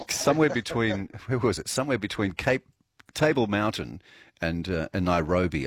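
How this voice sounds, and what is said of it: Rough, hoarse voice. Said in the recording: “It's a bit rough. I actually lost my voice while I was overseas.”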